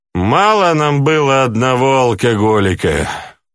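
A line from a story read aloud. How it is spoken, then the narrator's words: Sad sigh. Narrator (Russian): с грустью вздохнула Громбаба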